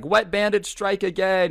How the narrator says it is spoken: Gerald starts screaming

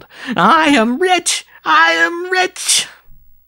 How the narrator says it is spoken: he burst into a shriek of wild laughter, as he yelled

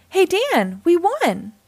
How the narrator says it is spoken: Paul cried out

